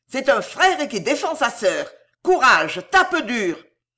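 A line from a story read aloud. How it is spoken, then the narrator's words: Shout. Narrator (French): elle criait à Franti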